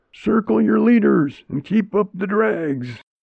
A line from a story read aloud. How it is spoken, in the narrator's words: I'd not yet woke up, but was thinking I was in a genuine cattle stampede, and yelled out